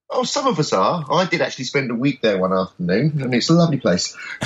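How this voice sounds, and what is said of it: London accent. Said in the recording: “You sound to me like you're in London. Through your accent.”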